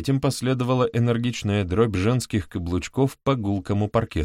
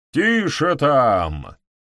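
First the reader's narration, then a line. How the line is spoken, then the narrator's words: Sudden roar. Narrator (Russian): неожиданно проревел Холмс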